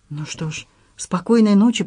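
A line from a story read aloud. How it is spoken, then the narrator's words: Whispered. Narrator (Russian): прошептала я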